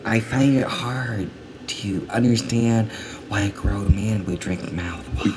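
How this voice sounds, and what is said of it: Whispering. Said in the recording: “You're whispering. ... Why are you whispering”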